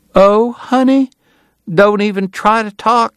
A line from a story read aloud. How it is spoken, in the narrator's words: she cried